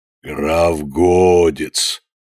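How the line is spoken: Hoarse, hellish distant voice. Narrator (Russian): ответил из глубины хриплый голос, вполне достойный преисподней

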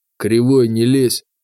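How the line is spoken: Sullen through teeth. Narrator (Russian): процедил бригадир, насупившись

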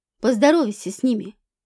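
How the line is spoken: Snorting. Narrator (Russian): фыркнул Рхин

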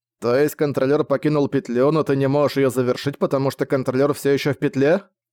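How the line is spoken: Plain. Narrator (Russian): спросил Зак

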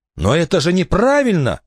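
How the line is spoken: Exclaiming. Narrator (Russian): воскликнул Барнаби

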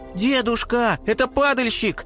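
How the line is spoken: Squeaky young eaglet. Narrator (Russian): пискнул орленок

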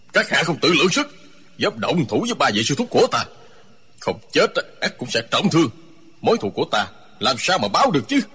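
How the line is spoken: Shouting. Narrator (Vietnamese): Không Trí quát lên

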